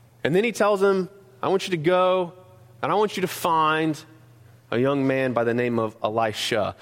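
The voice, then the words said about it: North Carolina Southern accent. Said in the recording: “my North Carolina accent”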